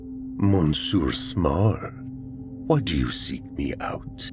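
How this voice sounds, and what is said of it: French accent, slightly hoarse voice. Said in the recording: “Her accent was French, the voice slightly hoarse.”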